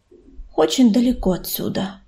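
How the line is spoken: Quiet reply. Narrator (Russian): тихо ответил ураган

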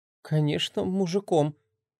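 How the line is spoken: Mumbled. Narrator (Russian): промямлил Сашка

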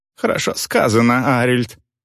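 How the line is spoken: Amused snort. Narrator (Russian): хмыкнул Гудвар

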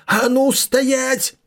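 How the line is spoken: Furious yell. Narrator (Russian): завопил он в ярости в спину Бай Юньфэю

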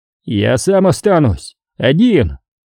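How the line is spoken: Shout. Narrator (Russian): закричал Боско

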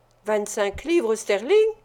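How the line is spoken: Exclaiming. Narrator (French): s'écria Monks

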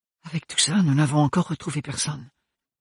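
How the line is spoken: Whispered. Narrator (French): lui murmura-t-elle

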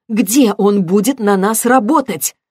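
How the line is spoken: Sharp question. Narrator (Russian): спросила она резко

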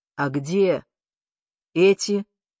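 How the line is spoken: Gloomy question. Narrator (Russian): наконец мрачно спросил

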